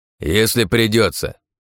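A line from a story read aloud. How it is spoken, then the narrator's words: Old man barking. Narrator (Russian): рявкнул дед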